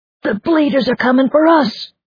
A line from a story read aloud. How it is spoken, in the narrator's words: One man yelled